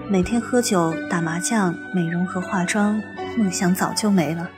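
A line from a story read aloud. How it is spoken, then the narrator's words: Flat, indifferent. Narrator (Chinese): 他淡淡的回答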